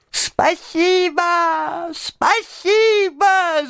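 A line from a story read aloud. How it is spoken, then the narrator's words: Squeaky shout. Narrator (Russian): закричал он пискляво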